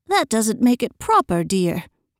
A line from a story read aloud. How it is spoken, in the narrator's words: put in her mother gently